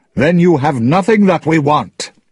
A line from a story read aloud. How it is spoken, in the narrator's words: he shouted